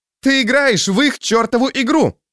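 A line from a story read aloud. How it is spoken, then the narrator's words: Exclaiming. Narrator (Russian): воскликнула она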